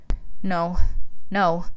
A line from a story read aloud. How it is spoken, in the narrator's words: Amelia started whimpering slightly